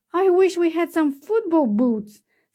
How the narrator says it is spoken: sighed Cinderella

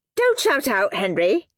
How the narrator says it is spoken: snapped Miss Battleaxe

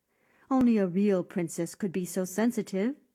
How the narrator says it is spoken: said the queen

